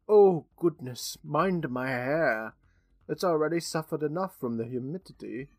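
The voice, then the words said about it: Terrible put-on British accent. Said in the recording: “Margaret's British, so you get terrible British accent ... That was awful.”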